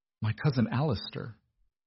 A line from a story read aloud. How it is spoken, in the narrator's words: Edmund said quietly